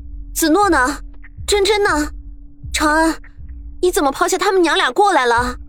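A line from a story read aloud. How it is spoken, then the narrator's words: Loud, agitated question. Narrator (Chinese): 苏月心却手心一抖，高声问道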